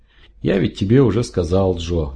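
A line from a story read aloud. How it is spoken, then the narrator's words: Gentle interjection. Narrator (Russian): ласково вмешался врач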